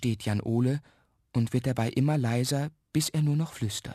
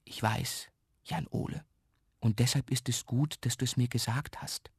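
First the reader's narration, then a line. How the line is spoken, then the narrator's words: Whispered reply. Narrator (German): flüstert Mama zurück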